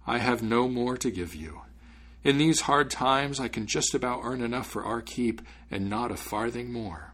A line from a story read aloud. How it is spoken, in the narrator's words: said the father sadly